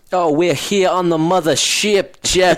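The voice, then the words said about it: Dusty Rhodes impression. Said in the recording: “is my best Dusty Rhodes impression,”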